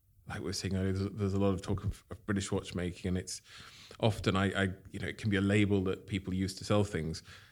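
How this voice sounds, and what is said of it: Non-Scottish accent. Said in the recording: “from my accent, I'm not originally from here. I've been in Scotland for 20 years, but I'm not Scottish.”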